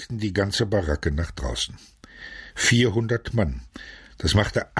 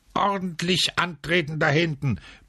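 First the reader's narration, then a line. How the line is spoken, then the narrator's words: Barked, barracks elder. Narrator (German): bellte der Barackenälteste von der Treppe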